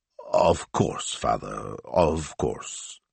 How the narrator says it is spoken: he mumbled

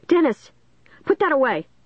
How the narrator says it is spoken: Caitlin cried

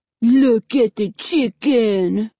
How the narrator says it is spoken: Fred said in a mocking, babyish voice

